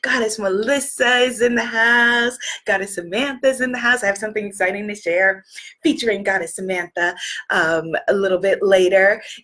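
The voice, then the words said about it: Hoarse, partly lost voice. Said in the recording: “as you can hear my voice, I've lost my voice a little bit”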